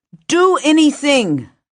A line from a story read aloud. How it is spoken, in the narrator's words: yelled